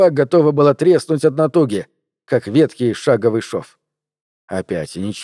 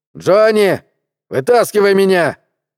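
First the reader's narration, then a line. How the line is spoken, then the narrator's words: Loud yell. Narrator (Russian): заорал Гард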